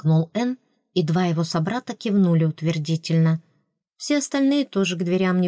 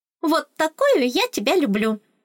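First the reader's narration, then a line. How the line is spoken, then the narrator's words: Delighted squeak. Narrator (Russian): восторженно пропищала Оскалка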